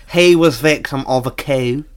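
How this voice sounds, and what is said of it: Put-on Norfolk accent. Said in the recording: “I'm going to translate into Norfolk accent for you.”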